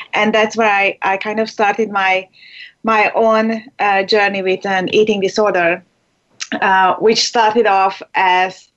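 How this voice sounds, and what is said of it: Hungarian accent. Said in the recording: “as you can tell from my, you know, accent, my strange accent... I was born in Hungary”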